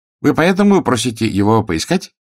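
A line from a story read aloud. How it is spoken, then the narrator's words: Slightly snide question. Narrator (Russian): несколько ехидно осведомился Гонзалин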